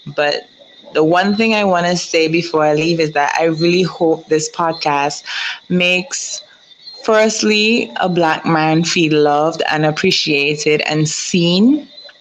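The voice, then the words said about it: Strong accent. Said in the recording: “I know my accent is a bit strong”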